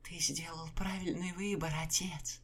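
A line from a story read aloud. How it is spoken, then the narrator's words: Cooing. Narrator (Russian): ворковала Энна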